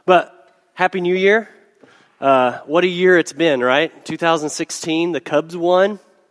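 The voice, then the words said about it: Hoarse, congested voice. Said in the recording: “apologize for my hoarse voice... If I clear my throat a few times... I got sinuses and a cold going on.”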